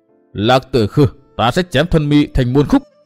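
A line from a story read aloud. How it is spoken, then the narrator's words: Shouted through gritted teeth. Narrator (Vietnamese): Chàng nghiến răng quát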